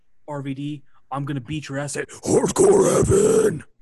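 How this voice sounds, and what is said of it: Death metal growl. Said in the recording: “the last words he'd say in, like, a death metal growl... that killed my fucking throat”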